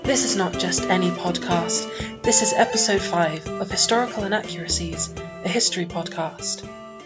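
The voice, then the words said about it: Sultry, sexy announcer voice. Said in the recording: “I still feel like I'm either an idiot or working on a sex line when I do that ... I really do have a very sexy voice.”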